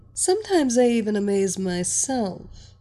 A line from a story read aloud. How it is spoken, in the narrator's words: she chuckled